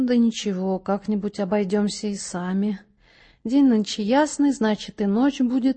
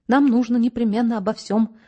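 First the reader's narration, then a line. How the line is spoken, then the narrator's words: Rapid garbled chatter. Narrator (Russian): затараторил коротышка, глотая слова и целые куски предложений так, что общего смысла в трескотне не просматривалось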